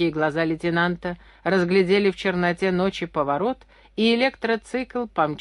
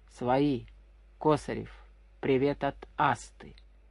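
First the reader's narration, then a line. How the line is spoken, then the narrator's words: Quiet muffled voice. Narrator (Russian): Гюнтер тихо, приглушенно произнес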